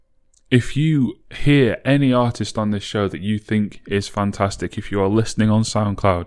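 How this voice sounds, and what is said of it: Deep voice, Northern English accent. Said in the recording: “I have a very deep voice and a very Northern English accent.”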